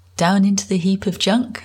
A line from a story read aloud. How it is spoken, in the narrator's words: Simon laughed